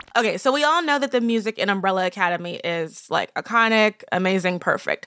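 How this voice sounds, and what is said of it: Strained, husky voice from overuse. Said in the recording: “I apologize for my voice. The other thing about VidCon is that you're talking very loudly ... So that's why I have this very seductive um, voice tenor right now.”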